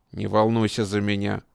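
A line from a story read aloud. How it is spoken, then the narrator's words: Cold reply. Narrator (Russian): холодно ответил Шамсуддин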